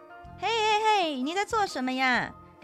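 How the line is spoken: Child singing loudly. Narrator (Chinese): 戴着帽子的小男孩唱着更大声了

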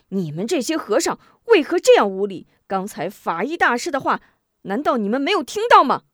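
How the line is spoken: Angry. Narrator (Chinese): 吴中怒道

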